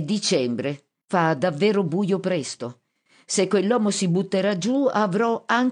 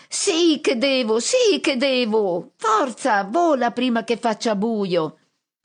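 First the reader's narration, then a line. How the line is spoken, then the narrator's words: Shrieking. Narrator (Italian): Pit Pit accanto a me strilla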